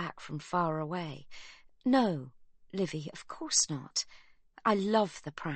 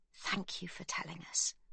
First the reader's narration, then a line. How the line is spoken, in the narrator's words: Magda whispers, her voice breaking, her heart breaking for the brother-in-law they have come to love